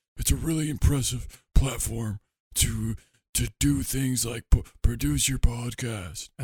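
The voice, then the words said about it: Imitates another person's voice. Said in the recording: “I think you're Nick Cage... That's an interesting impression, because it's just a complete opposite of my voice... you did all the exact opposite indicators of my voice”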